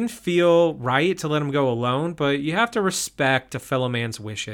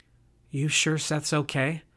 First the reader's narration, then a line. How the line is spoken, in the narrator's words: Josie whispered to me